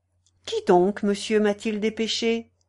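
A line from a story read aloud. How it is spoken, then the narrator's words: Brisk question. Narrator (French): demanda vivement la présidente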